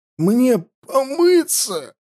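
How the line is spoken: Hoarse wheeze. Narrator (Russian): прохрипел Хаста

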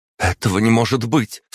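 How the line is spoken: Sharp cry. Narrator (Russian): вскрикнула Катерина

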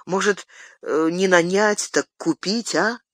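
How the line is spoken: Hesitant addition. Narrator (Russian): Добавил он неуверенно

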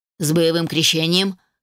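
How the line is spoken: Wry snort. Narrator (Russian): хмыкнул Хоторн

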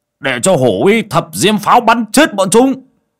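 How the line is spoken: Shouting. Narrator (Vietnamese): Bảy ếch quát lên một tiếng

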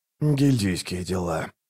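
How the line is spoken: Grumbled. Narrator (Russian): буркнул Раллик

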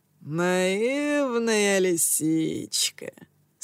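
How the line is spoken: Struggling through laughter. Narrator (Russian): с трудом выговорил я сквозь смех

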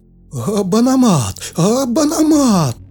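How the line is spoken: Frantic cries from behind. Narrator (Russian): Заполошно вскрикнули сзади

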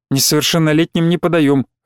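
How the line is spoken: Snapping retort. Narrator (Russian): огрызнулась Мария

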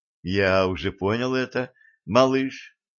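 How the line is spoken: Soft, aloud. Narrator (Russian): мягко сказал вслух Валентин

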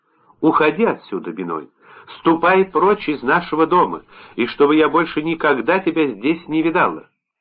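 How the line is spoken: Sharp. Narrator (Russian): она резко сказала

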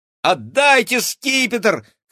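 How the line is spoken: Shout. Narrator (Russian): крикнула Кира

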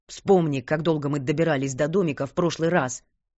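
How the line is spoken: Irritated bark. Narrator (Russian): гаркнул он, когда ее стенания наконец достали его

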